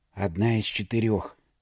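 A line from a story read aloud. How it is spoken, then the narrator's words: Whisper from behind. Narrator (Russian): прошептал кто-то за спиной Леды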